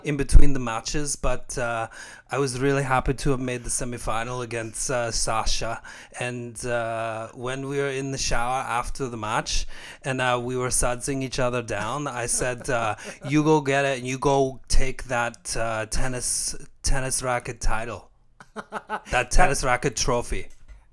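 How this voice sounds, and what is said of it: Put-on Austrian accent. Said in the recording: “That is spot on Austrian, Austrian accent.”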